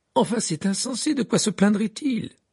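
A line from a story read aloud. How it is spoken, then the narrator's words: Exclamation. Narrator (French): s'écria Fleur de la Cour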